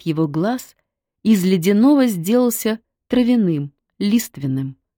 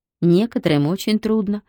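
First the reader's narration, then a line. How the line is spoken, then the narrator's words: Sigh. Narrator (Russian): вздохнула Серафима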